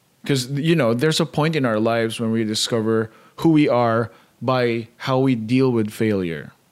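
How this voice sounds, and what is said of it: Very thick accent. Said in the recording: “have a very thick accent.”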